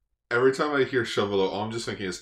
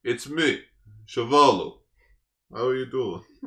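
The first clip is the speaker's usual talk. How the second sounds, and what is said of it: Put-on thick Russian accent. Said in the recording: “like a thick Russian accent”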